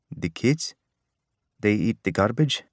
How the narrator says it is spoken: For the first time, Savannah let out a chuckle

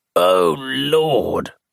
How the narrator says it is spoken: groaned George

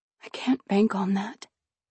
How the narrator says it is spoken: I whispered

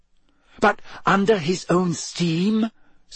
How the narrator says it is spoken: said Hermione eagerly

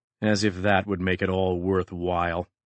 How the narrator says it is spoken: Maddox said bitterly to Jurati

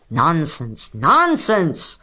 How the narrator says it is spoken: growled Mr

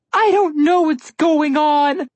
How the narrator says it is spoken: Alex burst into the loud and awkward tears one cries when exhausted and overly stressed

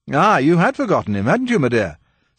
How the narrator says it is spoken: said Sir Percy merrily

